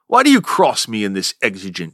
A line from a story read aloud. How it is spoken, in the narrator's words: snaps